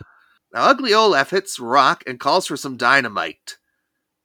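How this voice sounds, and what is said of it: Usual voice. Nothing is said of it.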